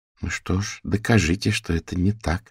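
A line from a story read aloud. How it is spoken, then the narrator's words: Calm. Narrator (Russian): спокойно ответила Фиона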